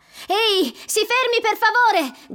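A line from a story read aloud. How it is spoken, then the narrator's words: Shouting. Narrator (Italian): grida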